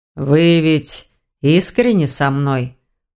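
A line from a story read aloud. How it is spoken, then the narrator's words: Grumbling from behind. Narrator (Russian): проворчал за ее спиной ректор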